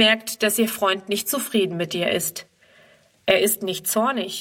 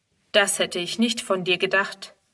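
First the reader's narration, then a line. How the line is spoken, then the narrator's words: Plain. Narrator (German): sagt er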